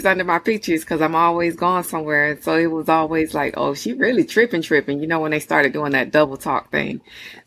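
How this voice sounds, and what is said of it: Slight Southern drawl. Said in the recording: “I hear a little southern drawl.”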